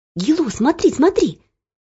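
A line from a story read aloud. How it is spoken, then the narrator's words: Quick whisper. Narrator (Russian): быстро зашептал Паш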